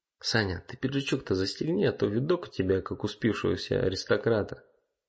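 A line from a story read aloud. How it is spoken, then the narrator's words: Whisper. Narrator (Russian): шепотом сказал Макс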